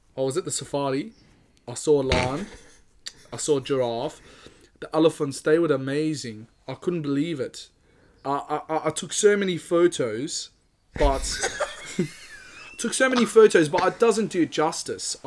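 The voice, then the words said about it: Put-on South African accent. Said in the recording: “South African's okay”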